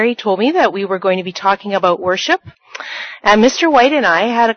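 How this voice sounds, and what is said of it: Usual voice. Nothing is said of it.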